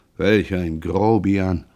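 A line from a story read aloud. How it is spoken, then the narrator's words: Annoyed muttering to himself. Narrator (German): Jean, verärgert, da er die junge Witwe gekränkt glaubte, murmelte vor sich hin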